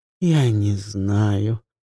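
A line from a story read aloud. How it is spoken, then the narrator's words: Drawling. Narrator (Russian): протянула Ивон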